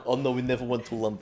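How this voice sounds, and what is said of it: Put-on Russian accent. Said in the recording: “Give us a Russian accent.”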